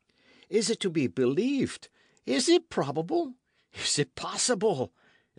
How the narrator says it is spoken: exclaimed Michel

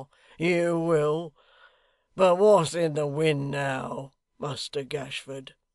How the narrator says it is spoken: asked hoarsely

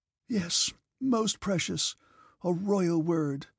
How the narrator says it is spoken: said Count Rostov with a sob

